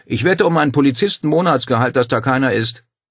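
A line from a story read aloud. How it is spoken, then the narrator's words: Calling after her. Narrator (German): Paul rief ihr nach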